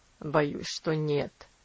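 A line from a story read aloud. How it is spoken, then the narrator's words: Answered sternly, older gentleman. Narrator (Russian): ответил старший джентльмен, строго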